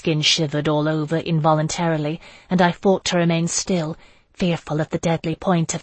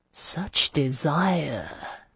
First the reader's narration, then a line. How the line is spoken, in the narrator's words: Melisande murmured